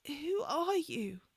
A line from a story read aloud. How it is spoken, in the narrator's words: croaked, her voice still not fully complying